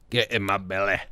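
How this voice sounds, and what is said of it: Fat Bastard character voice impression. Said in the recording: “terrible fat bastard impression ... You used to do a really good fat bastard”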